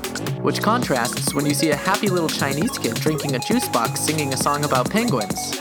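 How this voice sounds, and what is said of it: Usual voice. Nothing is said of it.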